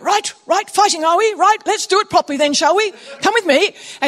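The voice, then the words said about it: Put-on British accent. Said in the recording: “I don't know why I'm doing a British accent”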